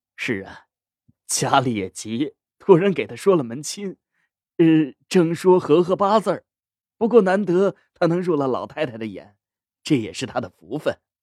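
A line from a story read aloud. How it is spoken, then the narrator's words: Laughing. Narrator (Chinese): 郑管事搓着手笑道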